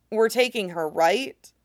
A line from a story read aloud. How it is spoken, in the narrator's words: Bingha asks